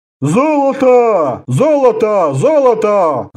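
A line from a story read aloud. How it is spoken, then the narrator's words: Roared in chorus. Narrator (Russian): взревели хором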